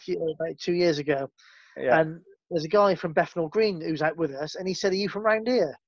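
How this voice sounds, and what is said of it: West Country English accent. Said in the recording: “I can really hear your West Country accent”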